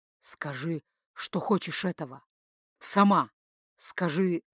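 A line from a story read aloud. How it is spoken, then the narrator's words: Quiet hoarse whisper. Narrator (Russian): тихо, хрипло прошептал в губы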